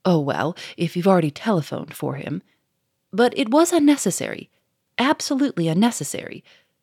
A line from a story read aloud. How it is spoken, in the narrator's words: said Monsieur Fomeray sharply